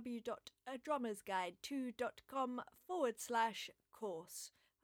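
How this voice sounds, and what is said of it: Very strange put-on accent. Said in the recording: “I just put on a very strange accent there”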